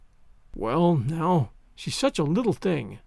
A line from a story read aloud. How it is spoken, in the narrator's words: feebly reiterated Matthew